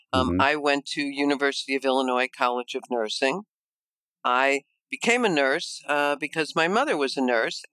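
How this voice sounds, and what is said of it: Chicago Midwestern American accent. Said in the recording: “you can probably tell with my accent that I am from Chicago, from the Midwest ... Although I try to get rid of that accent, certain words still haunt me”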